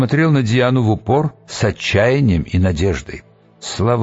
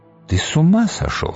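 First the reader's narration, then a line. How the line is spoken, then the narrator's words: Quiet. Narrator (Russian): сказала она тихо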